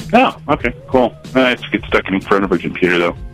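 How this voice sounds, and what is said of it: Smooth radio-announcer voice. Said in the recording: “you have a great radio voice ... This is a good radio voice”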